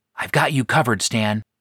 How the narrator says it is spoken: I whispered over the comlink

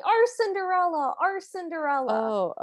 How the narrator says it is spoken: the village starts yelling

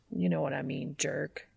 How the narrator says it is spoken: Dean mutters

